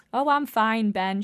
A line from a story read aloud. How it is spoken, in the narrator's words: she said